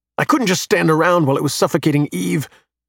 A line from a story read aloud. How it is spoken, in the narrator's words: he replies angrily